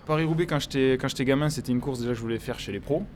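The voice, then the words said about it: Southern French accent. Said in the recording (French): “Vu l'accent, vous venez, vous venez pas du coin ... tout en bas du sud”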